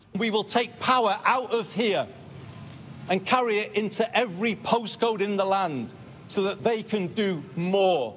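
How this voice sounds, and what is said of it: Northern English accent. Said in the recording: “the first British PM in 50 years to have a North of England accent”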